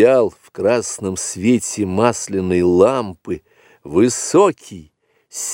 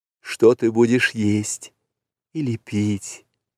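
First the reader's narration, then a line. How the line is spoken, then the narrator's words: Whisper. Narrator (Russian): прошептала Месуа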